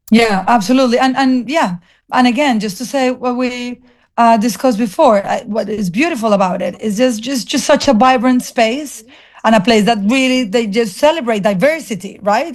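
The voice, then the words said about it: Colombian accent. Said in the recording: “I'm Colombian. I have an accent.”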